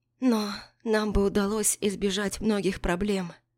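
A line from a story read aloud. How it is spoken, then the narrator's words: Uncertain whisper. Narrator (Russian): неуверенно прошептала Эшли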